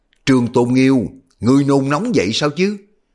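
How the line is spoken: Angry. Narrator (Vietnamese): Tần Lâm tức giận

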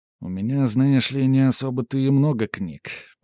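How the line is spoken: Grumbling. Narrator (Russian): пробурчал я

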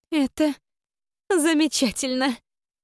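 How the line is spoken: Admiring breathy exclamation. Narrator (Russian): Восхищенно выдохнула Камила

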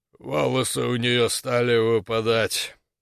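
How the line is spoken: Muffled, submissive speech. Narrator (Russian): глухо заговорил торговец, подчинившись

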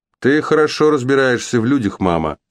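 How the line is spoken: Plain. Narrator (Russian): сказал он

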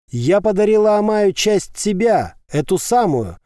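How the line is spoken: Shouting. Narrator (Russian): прокричала Ева

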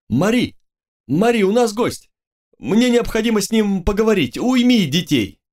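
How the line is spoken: Shout. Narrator (Russian): Тетау выкрикнул

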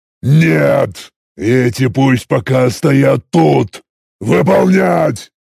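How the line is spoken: Growling. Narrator (Russian): я снова рыкнул

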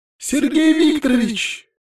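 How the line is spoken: Two voices crying out. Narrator (Russian): вскрикнули Катя и Стефания, когда я приземлился на подоконник

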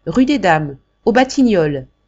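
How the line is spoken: Old woman shouting. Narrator (French): cria la mère Jacques

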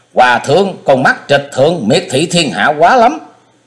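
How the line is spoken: Angry loud shouting. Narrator (Vietnamese): Ông không khỏi tức bực, lớn tiếng quát thét

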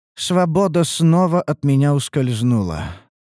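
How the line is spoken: Sad, pained sigh. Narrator (Russian): печально вздохнула эльфийка, зажимая рану в плече

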